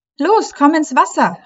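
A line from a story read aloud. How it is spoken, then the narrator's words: Cheerful call. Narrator (German): rief Leilani fröhlich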